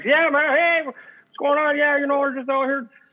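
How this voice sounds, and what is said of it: Put-on Southern US accent. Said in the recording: “Why did you sound from the South? Southern accent.”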